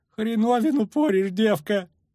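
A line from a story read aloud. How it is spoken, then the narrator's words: Ferryman's groan. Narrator (Russian): простонал паромщик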